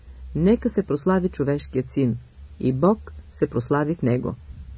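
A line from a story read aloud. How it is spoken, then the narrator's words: Tender, loving. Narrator (Bulgarian): Поглеждайки към учениците си с божествена любов и с най-нежно съчувствие, Христос каза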